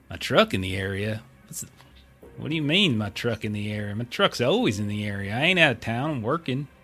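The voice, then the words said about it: Character voice with southern accent. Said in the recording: “got herself a southern accent of some kind.”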